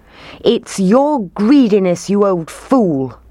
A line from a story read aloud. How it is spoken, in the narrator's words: they shouted